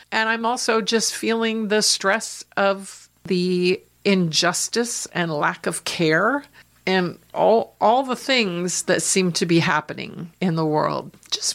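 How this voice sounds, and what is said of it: Voice affected by feeling unwell. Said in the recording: “I'm not feeling that great, so pardon my voice for today”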